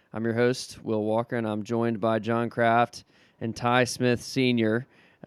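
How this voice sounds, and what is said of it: Slightly weakened, strained voice. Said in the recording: “my voice is a little bit maybe weaker than it than it was at least earlier today”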